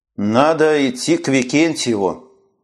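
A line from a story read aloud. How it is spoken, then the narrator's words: Gloomy mutter. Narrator (Russian): уныло пробормотал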